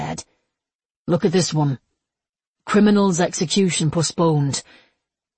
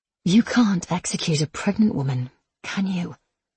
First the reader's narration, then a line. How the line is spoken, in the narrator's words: Anne asked softly